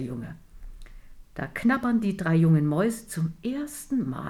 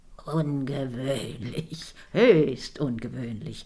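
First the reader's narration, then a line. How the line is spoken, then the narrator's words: Mumbled with full mouth. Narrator (German): murmelt Onkel Jeremias mit vollen Backen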